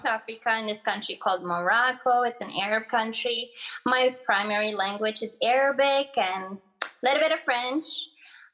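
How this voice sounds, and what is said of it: Moroccan accent with French tinge. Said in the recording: “I do have an accent ... I hear more of the French in your accent”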